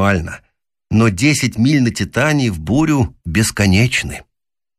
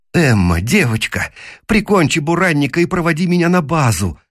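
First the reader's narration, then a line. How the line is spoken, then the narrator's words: Pleading. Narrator (Russian): взмолился я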